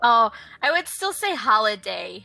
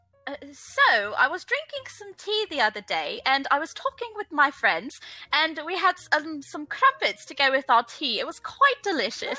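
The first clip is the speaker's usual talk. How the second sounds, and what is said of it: Put-on British accent. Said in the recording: “Can you do a British accent? ... Oh my gosh. I will try.”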